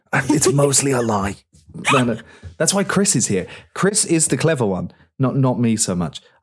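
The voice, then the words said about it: British accent. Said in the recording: “you've got an accent. To people across the pond where I'm from, you guys could say absolute nonsense. You'd still sound like Harvard grads.”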